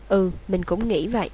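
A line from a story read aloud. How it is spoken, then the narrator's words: Sighing. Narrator (Vietnamese): Hermione thở dài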